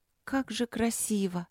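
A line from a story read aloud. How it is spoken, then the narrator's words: Dreamy breathy exhale. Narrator (Russian): мечтательно выдохнула младшая Рудлок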